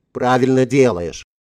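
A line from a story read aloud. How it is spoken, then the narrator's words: Snapping. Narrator (Russian): огрызнулась Элен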